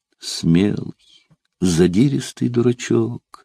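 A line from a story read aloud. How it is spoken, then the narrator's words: Quiet, woman. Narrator (Russian): сказала она все так же негромко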